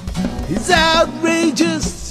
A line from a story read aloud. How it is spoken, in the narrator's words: he screams and he bawls